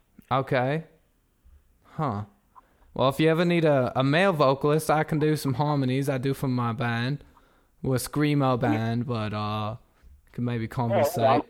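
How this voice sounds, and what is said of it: Speaks with an accent. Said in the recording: “I have an accent.”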